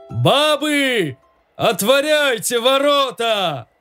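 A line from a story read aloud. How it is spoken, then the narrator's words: Sudden shout. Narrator (Russian): Да как закричит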